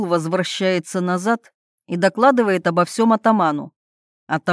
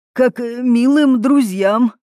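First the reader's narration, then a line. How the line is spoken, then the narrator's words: Trembling voice. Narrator (Russian): Помещик дрожащим голосом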